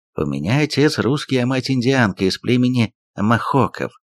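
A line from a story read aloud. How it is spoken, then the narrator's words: Plain. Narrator (Russian): ответил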